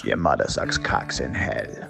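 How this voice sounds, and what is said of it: Menacing put-on West Indian accent. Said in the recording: “recite satanic verses ... in a malevolent West Indian accent”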